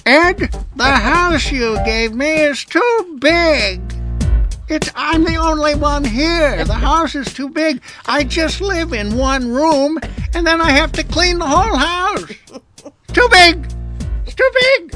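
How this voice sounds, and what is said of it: Imitating his elderly mother's voice. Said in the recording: “I'll do her voice.”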